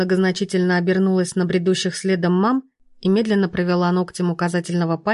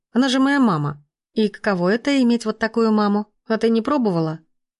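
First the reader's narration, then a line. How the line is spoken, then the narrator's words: Grumbled. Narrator (Russian): Буркнула Тома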